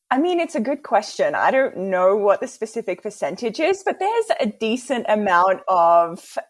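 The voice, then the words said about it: Australian accent. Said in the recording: “you're from Australia, so I was actually pretty stoked for your accent”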